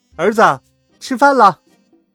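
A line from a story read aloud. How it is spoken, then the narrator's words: Calling out. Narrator (Chinese): 妈妈喊道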